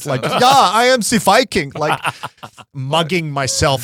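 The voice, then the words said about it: Weird half-German accent. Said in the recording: “I couldn't do a Viking accent, so I did a weird half-German accent.”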